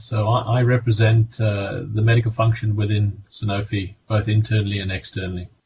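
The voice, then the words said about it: South African accent. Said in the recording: “You can hear by my accent, I'm originally South African.”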